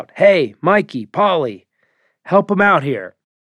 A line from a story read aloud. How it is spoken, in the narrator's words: called out